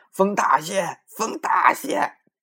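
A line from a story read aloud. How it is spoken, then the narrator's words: Impatient loud voice. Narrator (Chinese): 大官嫌船慢，在船头上大声说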